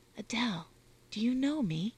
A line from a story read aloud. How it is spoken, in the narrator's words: whispered Constance again